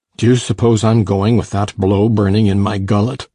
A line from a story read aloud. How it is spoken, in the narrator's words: he thundered